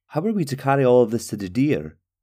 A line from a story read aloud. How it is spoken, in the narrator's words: Talgo asked